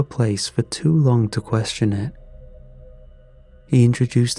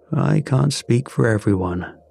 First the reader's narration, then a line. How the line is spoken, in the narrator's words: said